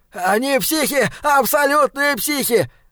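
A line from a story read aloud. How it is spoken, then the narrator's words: Breathless yelling. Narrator (Russian): заорал он, тяжело дыша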